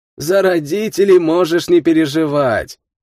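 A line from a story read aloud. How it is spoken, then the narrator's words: Laughing. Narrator (Russian): Романов засмеялся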